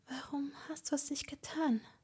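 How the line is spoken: Whispered. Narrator (German): flüsterte sie

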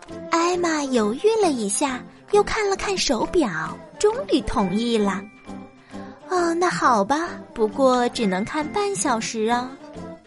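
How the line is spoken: Low voice. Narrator (Chinese): 彩丽低声说

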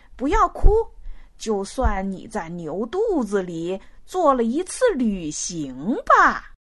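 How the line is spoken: Smiling, cheerful. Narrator (Chinese): 青头笑眯眯的说

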